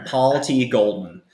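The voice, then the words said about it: Put-on American accent. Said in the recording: “My accent. I'll do it in American.”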